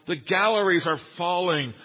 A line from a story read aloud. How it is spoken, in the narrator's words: someone on the floor cried out